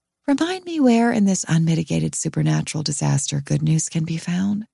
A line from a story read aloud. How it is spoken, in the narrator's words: she says brightly